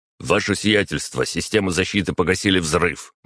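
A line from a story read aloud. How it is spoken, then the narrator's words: Quick, driver. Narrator (Russian): быстро произнес водитель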